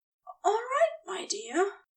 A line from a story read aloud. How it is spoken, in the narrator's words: Aziraphale gasped through his own reaction to the penetration